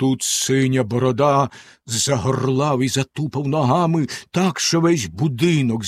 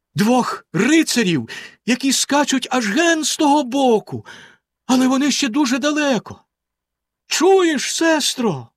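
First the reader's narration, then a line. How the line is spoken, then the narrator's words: Exclaiming woman. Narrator (Ukrainian): вигукнула вона за мить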